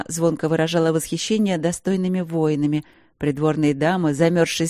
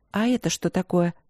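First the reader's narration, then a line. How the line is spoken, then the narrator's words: Quiet question. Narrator (Russian): тихо спросила она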